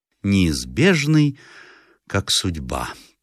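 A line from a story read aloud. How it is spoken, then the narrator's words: Almost reverent tone. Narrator (Russian): повторила почти набожным голосом хозяйка дома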